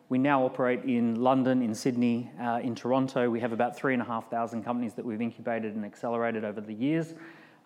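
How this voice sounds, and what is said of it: Australian accent. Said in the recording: “You can hear I've got an Australian accent ... I still have the Australian accent”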